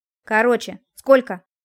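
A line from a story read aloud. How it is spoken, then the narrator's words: Sudden bark into phone. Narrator (Russian): неожиданно рявкнул в трубку Привольнов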